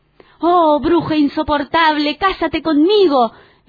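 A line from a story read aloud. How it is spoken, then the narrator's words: Exclaiming. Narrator (Spanish): exclamó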